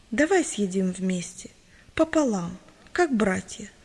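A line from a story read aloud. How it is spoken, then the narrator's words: Gentle, simple. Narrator (Russian): ласково и просто сказал Иван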